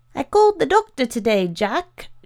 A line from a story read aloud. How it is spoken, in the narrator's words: shouted Janice from the kitchen